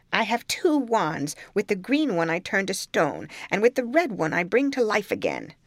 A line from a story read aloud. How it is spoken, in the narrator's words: the old woman cried out